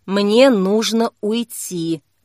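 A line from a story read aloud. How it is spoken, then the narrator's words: Quiet. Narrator (Russian): тихо сказала Кира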